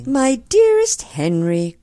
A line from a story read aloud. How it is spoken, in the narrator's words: cried Mary, smiling in his face